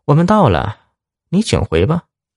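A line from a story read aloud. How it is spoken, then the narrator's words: Faint smile, calm. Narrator (Chinese): 薛小北对老大淡淡一笑，说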